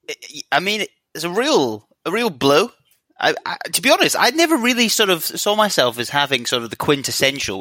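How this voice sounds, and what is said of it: Edinburgh Scottish accent. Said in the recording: “accent is everything I dislike about Edinburgh ... private school Edinburgh accent ... the tone and pitch of my voice”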